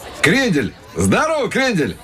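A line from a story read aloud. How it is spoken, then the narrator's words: Yelled. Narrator (Russian): Заорал какой-то парень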